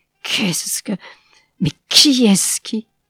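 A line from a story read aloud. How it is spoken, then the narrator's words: Stammering. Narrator (French): balbutia-t-il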